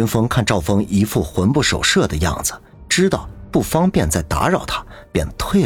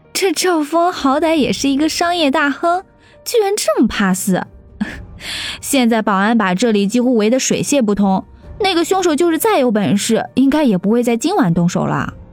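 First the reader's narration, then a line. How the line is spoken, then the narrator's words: Amused. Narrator (Chinese): 林阳暗暗好笑，不禁说道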